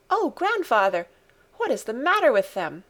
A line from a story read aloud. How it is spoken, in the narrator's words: exclaimed Heidi in shocked surprise